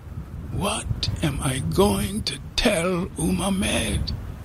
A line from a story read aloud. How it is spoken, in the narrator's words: He moaned